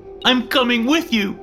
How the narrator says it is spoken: cried

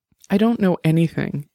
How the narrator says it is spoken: said, her voice quivering

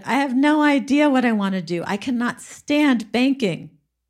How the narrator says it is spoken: she was whining to her brother and she said

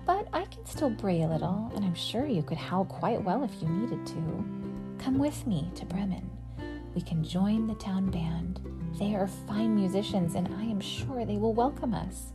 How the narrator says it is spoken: said the donkey kindly

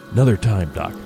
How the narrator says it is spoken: Hank whispered

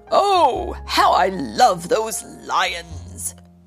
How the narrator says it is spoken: Isaac's father exclaimed

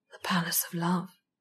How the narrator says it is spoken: he said softly

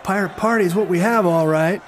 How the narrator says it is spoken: she shouted down at the others

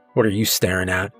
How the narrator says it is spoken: mutter

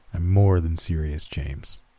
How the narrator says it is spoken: calmly responded

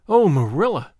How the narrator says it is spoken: she exclaimed

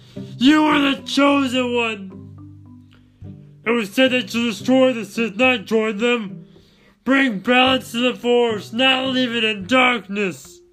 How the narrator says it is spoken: Anakin groaning in pain

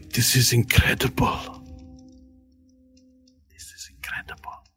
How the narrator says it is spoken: whispers to you

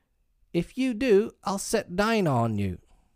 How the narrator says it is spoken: Alice called out as loud as she could

